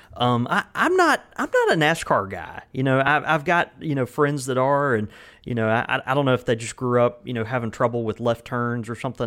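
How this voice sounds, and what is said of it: Southern Mississippi accent. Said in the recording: “terrible Southern accent from Mississippi”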